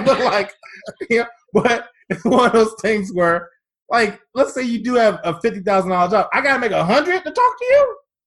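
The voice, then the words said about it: Raised, increasingly loud voice. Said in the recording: “my voice keeps elevating”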